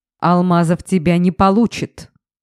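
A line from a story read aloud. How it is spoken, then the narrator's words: Barked. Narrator (Russian): рявкнул Стас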